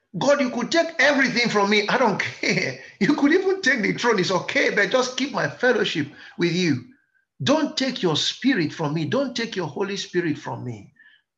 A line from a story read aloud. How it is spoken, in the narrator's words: David heard, he cried